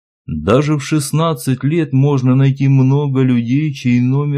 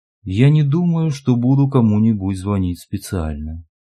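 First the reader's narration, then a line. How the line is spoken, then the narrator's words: Quiet. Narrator (Russian): тихо сказала Катя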